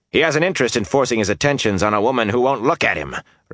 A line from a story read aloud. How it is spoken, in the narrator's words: Rand shouted